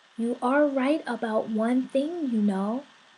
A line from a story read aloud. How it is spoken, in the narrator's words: the friendly soul seemed to turn serious and said in a quiet voice